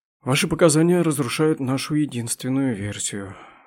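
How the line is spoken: Sigh. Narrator (Russian): вздохнул Миго

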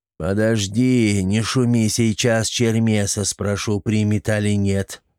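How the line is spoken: Muffled voice behind doors. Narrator (Russian): глухо прозвучало из-за дверей

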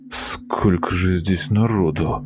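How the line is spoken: Muttering. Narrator (Russian): пробормотал он

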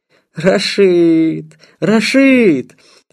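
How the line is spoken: Loud laughter. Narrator (Russian): захохотал

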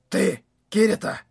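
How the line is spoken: Whisper. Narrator (Russian): шепот, с которым игрок по имени Десган обратился ко мне

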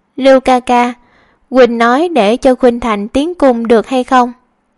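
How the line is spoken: Sighing. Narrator (Vietnamese): lắc đầu thở dài

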